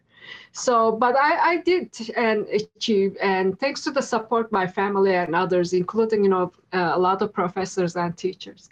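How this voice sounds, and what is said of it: Non-native English accent. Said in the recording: “You can say from my accent, I'm not, you know, from here.”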